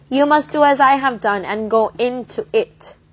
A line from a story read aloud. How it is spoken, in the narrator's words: Charles said